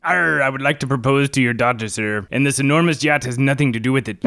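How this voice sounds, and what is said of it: Pirate character voice. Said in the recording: “Blackbeard, what his voice sounded like”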